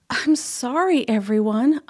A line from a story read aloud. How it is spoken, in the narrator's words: Amu sighed